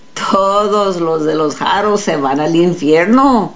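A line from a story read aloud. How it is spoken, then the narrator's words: Laughing. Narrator (Spanish): rió Florencio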